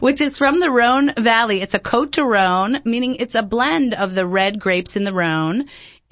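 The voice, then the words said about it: New Jersey accent. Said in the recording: “Pretty good for a Jersey accent.”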